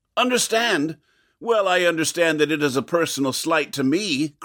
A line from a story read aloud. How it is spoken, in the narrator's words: cried the beetle